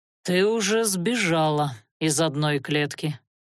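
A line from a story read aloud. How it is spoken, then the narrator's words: Dull, muffled voice. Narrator (Russian): глухо сказал он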